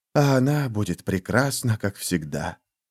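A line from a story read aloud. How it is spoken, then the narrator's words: Whispering. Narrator (Russian): прошептал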